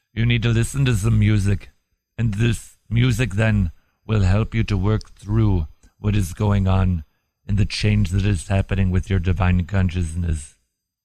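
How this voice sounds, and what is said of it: Imitates another person's voice. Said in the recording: “My impression of Deepak”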